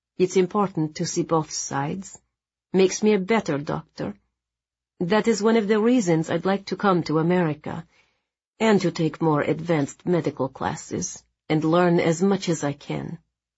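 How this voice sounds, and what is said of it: Lilting Polish accent. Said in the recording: “her lovely, lilting Polish accent”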